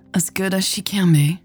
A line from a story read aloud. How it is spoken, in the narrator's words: Hannah sighed